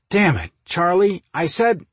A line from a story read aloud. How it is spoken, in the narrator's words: Mike started to say before he snapped his mouth closed